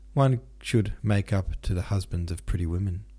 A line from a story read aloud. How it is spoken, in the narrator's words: said Denisov